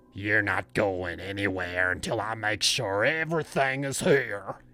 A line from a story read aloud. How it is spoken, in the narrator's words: he growled